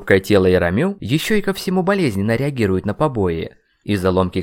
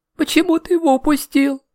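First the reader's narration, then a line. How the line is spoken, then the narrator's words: Question breaking into sobs. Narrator (Russian): наконец спросила Маша и разрыдалась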